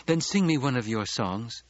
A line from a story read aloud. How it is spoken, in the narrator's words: Chani pleaded